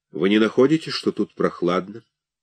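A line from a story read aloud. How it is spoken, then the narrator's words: Flat, toneless voice. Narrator (Russian): Каким-то безинтенционным голосом он сказал мне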